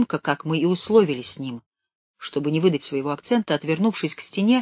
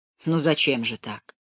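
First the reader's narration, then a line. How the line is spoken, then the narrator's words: Soft. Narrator (Russian): мягко проговорил генерал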